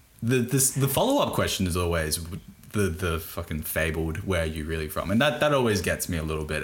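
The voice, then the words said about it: Thick broad Australian accent. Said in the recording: “I'm from Australia. Like I have a thick, pretty Bogan accent”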